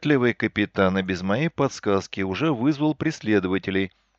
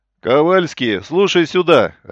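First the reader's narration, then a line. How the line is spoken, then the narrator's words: Barked. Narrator (Russian): рявкнул Линдеман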